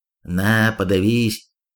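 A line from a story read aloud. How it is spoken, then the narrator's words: Spat through teeth. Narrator (Russian): процедил вернувшийся Нич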